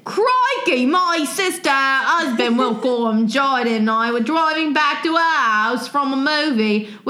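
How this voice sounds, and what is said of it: Exaggerated Australian accent. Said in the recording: “Can you say this whole story in an Australian accent? ... I'm going to do like super, like, what's the guy's name ... Steve Irwin.”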